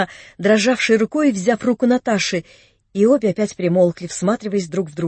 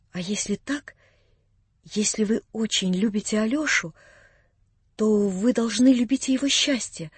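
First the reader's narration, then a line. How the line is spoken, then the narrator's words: Timid whisper. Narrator (Russian): прибавила робко и шепотом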